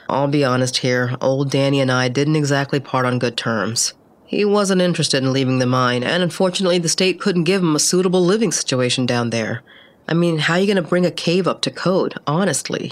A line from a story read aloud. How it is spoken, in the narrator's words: he laughed